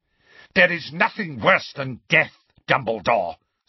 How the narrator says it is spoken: snarled Voldemort

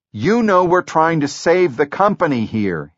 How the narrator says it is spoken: he shouted

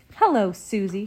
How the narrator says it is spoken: said brightly

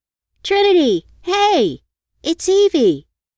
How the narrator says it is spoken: yelled out the window

